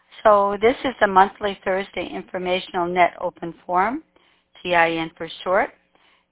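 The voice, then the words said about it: Low, under-the-weather voice. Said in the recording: “apologize for my voice. I've been a little bit under the weather, so my voice is a little low.”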